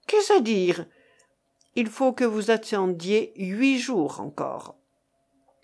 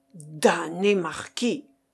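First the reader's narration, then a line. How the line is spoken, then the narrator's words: Grumbling. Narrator (French): grommela le chevalier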